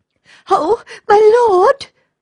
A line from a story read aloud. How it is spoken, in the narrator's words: cried the little girl, nearly crying